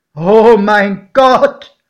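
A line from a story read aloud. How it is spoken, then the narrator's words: Exclaimed. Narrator (German): rief mein Pate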